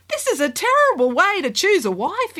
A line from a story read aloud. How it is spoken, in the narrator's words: exclaimed the prince